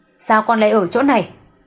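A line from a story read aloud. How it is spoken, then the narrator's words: Angry question. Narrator (Vietnamese): Doãn phu nhân ngồi trên xe lăn dừng ở cuối hành lang, xoay đầu nhìn về phía Nhiễm Tịch Vi, trừng mắt tức giận hỏi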